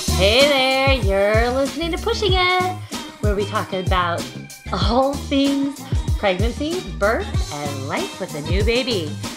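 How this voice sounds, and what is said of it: Happy, perky podcast host voice. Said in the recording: “You're using your big girl podcast voice. ... your podcaster voice ... you're happy and perky”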